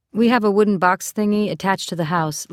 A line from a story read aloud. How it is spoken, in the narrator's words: Lisi said